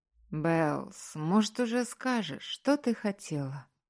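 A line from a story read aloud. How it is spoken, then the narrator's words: Weary drawl. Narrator (Russian): устало протянул Маркус, когда сестра в очередной раз решила обсудить совместную поездку к матери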